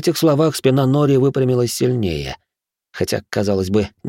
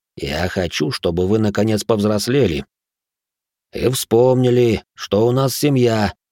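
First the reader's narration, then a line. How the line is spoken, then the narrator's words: Interrupting with heavy sigh. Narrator (Russian): не дав ему договорить, тяжело вздохнул Керо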